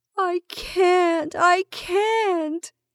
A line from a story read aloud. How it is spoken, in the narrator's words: she moaned again